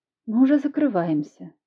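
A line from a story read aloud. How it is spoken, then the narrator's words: Soft, smiling. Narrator (Russian): мягко улыбнулась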